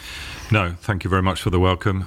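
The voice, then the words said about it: Non-American accent. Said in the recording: “you're not from South Georgia or Texas ... the accent confirms I'm not from South Georgia or Texas”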